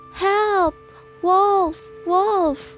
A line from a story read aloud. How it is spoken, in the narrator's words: cries